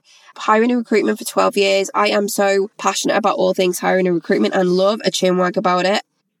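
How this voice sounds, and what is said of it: Thick Liverpool-area English accent. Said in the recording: “I am from near Liverpool in the UK ... I have a bit of a thick accent, so hopefully you can hear it and it's a little bit different on your Aussie ears”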